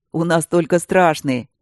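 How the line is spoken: Booming soldier's voice. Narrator (Russian): прогудел один из солдат

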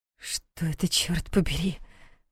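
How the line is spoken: Whisper. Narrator (Russian): прошептала Диана

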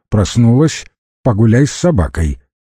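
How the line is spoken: Stern. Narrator (Russian): она строго произнесла

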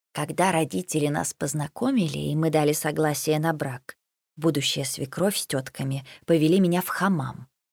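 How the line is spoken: Old woman whispering closely. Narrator (Russian): почти на ухо стала шептать очаровательная старушка

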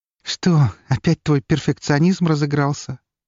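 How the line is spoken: Soft laughing. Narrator (Russian): негромко рассмеялась она

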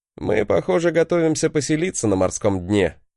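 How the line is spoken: Wry snort. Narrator (Russian): хмыкнул я

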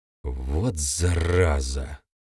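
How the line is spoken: Through gritted teeth. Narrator (Russian): процедил парень

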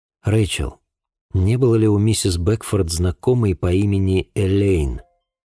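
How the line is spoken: Forced calm. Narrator (Russian): Стараясь говорить спокойно, спросил я

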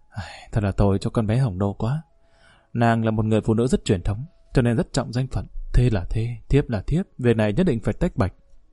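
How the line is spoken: Sighing. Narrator (Vietnamese): Tần phu nhân thở dài nói

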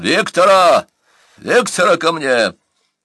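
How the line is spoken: Sudden shout, changed voice. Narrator (Russian): И вдруг, резко изменив свой голос, Бурса закричал

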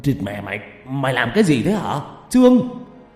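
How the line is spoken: Stammering shout. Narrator (Vietnamese): Hắn lắp bắp quát lên

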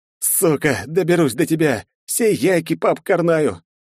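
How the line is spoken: Hoarse, out of breath. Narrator (Russian): Чуть отдышавшись, прохрипел я

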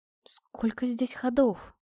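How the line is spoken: Whisper. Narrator (Russian): прошептала

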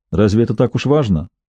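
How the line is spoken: Calm. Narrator (Russian): спокойно произнес Дрейпер

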